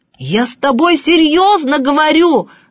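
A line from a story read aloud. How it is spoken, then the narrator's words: Professor shouting. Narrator (Russian): закричал профессор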